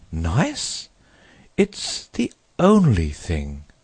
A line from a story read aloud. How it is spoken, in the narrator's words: said the water rat solemnly